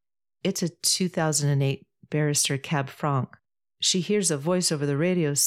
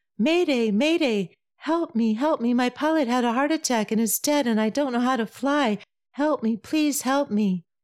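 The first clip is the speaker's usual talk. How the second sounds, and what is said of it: Falsetto panicked voice. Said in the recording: “continues his joke in falsetto.”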